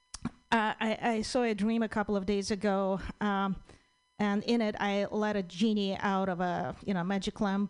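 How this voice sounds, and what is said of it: Foreign-accented English. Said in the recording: “someone who speaks with a funny accent”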